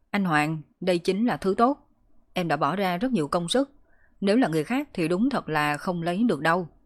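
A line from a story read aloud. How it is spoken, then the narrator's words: Smug, loud. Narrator (Vietnamese): Vương Tiểu Vĩ vô cùng đắc ý, lớn tiếng nói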